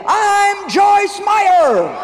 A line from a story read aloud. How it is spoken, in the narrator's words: my son, Noah, yelled